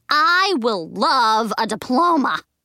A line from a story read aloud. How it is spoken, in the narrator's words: I shouted